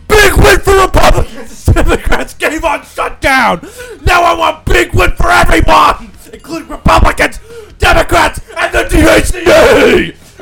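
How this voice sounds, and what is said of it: Yelling like a wrestling announcer. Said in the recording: “You got to do it as a wrestler. ... you're yelling.”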